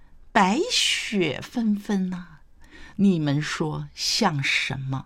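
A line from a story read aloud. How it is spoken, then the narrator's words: Smiling question. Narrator (Chinese): 谢安微笑问道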